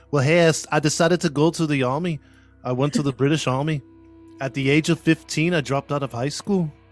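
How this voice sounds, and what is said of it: American attempting British accent, sounds Irish. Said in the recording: “I can't do a Scottish accent, but I'm assuming he had a London accent or like a British accent ... Sounds Irish ... Not bad for U.S. American guy. Not bad. Sounds something.”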